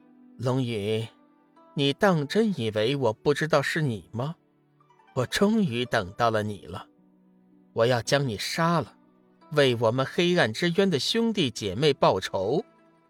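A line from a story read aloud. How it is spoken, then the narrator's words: Cold sneering woman. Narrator (Chinese): 女子冷笑一声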